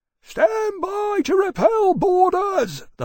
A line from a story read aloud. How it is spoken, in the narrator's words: the boatswain bellowed